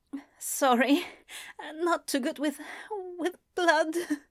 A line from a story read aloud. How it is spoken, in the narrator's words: he whimpered